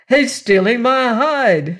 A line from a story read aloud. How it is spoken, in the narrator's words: shouted the farmer